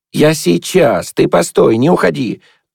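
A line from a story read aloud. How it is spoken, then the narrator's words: Joyful shout while running. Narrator (Russian): радостно крикнул тот, убегая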